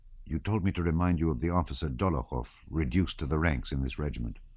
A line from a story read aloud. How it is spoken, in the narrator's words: Prince Andrew said softly in French